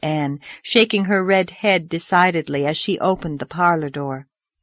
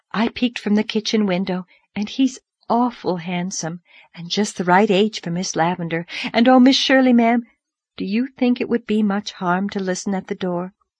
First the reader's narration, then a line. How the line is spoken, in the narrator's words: she breathed